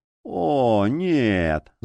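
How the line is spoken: Groaning. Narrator (Russian): застонал гримуар

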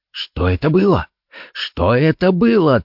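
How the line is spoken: Agitated, repeating. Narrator (Russian): твердил он взволнованным голосом

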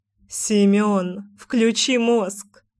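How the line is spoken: Laughing jab. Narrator (Russian): хохотнула Мила

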